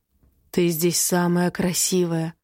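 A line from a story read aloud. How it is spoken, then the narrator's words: Soft whisper in ear. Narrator (Russian): тихо шепчет в ухо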